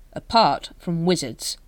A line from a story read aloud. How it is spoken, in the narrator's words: said Vimes firmly